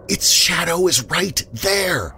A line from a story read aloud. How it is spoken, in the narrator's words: Fixated, she whispers